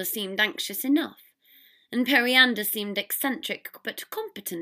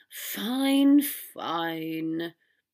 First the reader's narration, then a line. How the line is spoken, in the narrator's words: Draco sighed